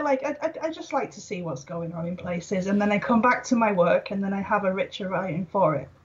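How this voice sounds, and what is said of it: Welsh accent. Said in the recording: “I pick up an accent from you ... I'm from Wales ... Welsh”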